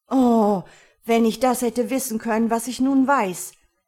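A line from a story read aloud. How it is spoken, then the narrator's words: Repeated exclaiming. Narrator (German): rief einmal über das andere aus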